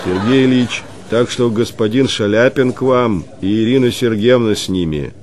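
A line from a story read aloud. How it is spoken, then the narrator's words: Loud announcement. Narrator (Russian): поспешно громко возвестил Василий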